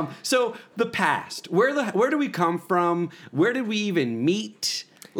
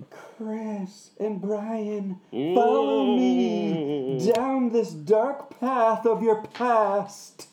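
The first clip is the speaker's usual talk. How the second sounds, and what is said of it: Spooky ghost voice. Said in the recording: “That was my best ghost impression. ... That was bad.”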